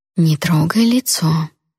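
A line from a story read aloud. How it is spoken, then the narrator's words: Gentle kind tone. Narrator (Russian): тем же ласковым тоном с доброжелательной улыбкой остановила меня Тора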